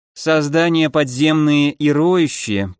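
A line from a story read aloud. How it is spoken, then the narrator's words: Grumble. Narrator (Russian): проворчала Лори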